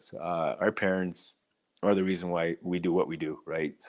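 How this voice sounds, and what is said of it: Emotional voice. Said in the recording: “getting a little emotional there”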